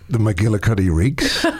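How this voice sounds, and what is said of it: Deep announcer-style voice. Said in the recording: “With your, like, announcer voice. ... We need to start getting some ASMR dollar from you.”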